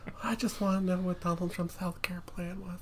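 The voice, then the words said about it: Comedic Mr. Garrison-like character voice. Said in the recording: “That is not my Stephanie impression ... I didn't know you were friends with Mr. Garrison ... I think that voice is kind of a ripoff ... Mine is kind of a ripoff of Jim Gaffigan”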